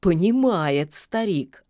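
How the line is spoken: Approving grunt. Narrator (Russian): одобрительно хмыкнул серый

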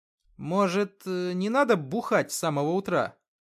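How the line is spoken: Hesitant question. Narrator (Russian): как-то неуверенно спросил Артем

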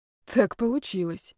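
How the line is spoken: Breathed out. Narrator (Russian): выдохнул Ярослав

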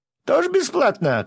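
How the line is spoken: Shout. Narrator (Russian): крикнул кто-то

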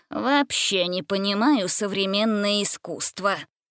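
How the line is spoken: Muttering. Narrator (Russian): пробормотал

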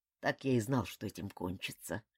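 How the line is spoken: Mutter. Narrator (Russian): пробормотал он

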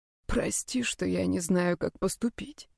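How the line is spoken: Whisper. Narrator (Russian): шептал Брайан

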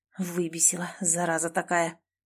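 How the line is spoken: Muttered. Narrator (Russian): пробормотал Клим

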